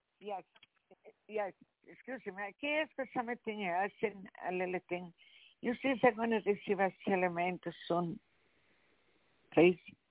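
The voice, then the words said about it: Strong accent, hard to understand. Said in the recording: “I'm having a very difficult time understanding your dialect”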